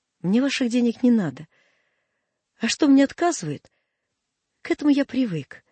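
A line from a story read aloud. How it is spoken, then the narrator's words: Trembling voice. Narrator (Russian): сказал он дрогнувшим голосом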